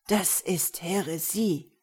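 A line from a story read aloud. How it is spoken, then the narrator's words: Croaking voice. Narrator (German): krächzte Gerber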